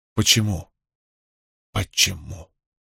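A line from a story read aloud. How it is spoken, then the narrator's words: Whisper fading to breath. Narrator (Russian): прошептал он второй раз тише первого, а потом уже совсем тихо, как слетевшее с губ облачко дыхания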